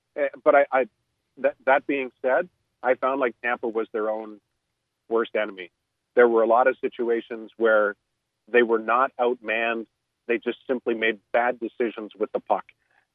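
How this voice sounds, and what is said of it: Hoarse, strained voice. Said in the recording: “losing my voice, though ... now you're losing your voice because you've been on with us so long”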